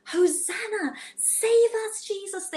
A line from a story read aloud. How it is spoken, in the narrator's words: they shouted and they cheered